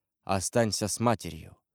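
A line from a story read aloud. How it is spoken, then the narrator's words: Gentle. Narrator (Russian): он ласково остановил ее и сказал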